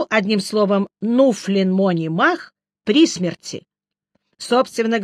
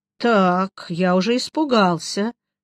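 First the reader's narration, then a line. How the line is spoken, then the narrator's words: Sighing. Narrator (Russian): вздохнул я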